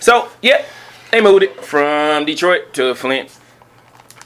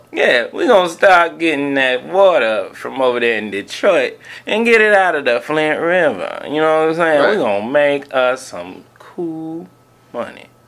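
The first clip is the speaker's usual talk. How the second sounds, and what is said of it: Drawling old pimp character voice. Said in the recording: “That's how you sound, like an old pimp? ... That was terrible ... That was a terrible pimp impression.”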